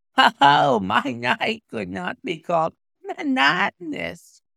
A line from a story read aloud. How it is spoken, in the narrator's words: said he, and laughed